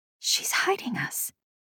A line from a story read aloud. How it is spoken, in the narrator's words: I whispered